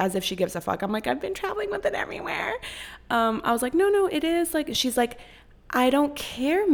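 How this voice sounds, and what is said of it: Usual voice. Nothing is said of it.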